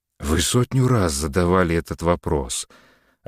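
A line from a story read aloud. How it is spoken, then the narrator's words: Tired reply. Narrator (Russian): ответил Самарин устало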